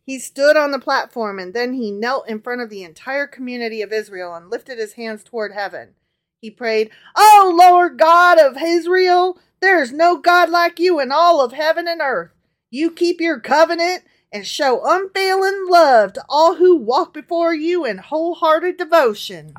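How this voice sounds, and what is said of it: Put-on Southern accent while reading. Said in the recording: “And the southern accent.”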